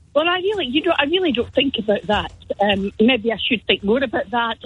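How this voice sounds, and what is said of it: Scottish lilt. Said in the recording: “I think I detect a Scottish lilt there”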